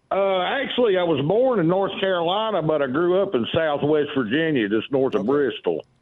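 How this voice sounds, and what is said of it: Southern hillbilly accent. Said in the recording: “Henceforth, the hillbilly accent.”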